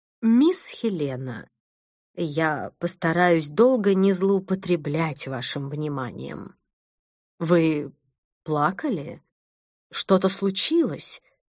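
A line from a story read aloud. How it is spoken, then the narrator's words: Calm voice. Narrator (Russian): произнесла она спокойным голосом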